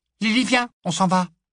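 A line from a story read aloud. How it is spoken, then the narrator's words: Small piercing voice. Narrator (French): dit-elle d'une petite voix perçante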